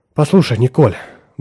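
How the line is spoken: Strained, forced smile. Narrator (Russian): выдавив улыбку, наконец проговорила Франческа

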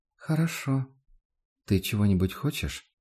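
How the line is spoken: Calm girl answering. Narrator (Russian): девочка спокойно ответила

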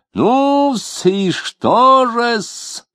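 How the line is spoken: Playful squeal. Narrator (Russian): задорно взвизгнул Лютов

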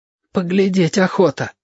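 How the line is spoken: Breathy exhale. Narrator (Russian): выдохнул Мишка

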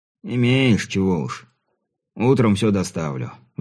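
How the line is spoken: Sighing peasant. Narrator (Russian): вздохнул крестьянин

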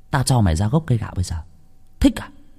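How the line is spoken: Children, threatening. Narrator (Vietnamese): Lũ trẻ con dọa nạt nhau cũng bảo

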